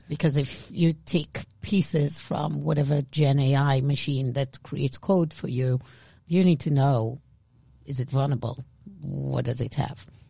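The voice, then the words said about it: Israeli-accented English. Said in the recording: “my Israeli accent, I cannot say this word”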